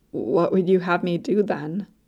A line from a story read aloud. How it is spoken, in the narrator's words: sighed